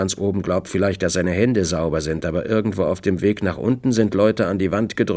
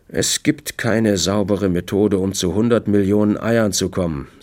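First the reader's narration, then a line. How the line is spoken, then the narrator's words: Plain. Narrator (German): sagte Olds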